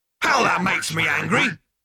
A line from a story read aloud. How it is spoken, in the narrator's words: bellowed the machine